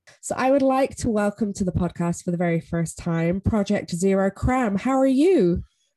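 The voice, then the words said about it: Congested, rough voice from a cold. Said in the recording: “As you can hear, I sound absolutely disgusting. ... it is just that season for colds.”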